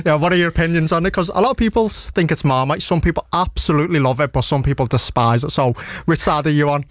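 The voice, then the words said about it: Strong regional British accent. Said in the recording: “you are struggling with the accent... when I first spoke to you, it really caught me off guard... when you first spoke, I had no idea what you said”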